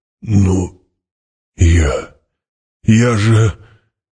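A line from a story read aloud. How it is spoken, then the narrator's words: Utterly broken, forced out. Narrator (Russian): Гурни, совершенно сломленный, выдавил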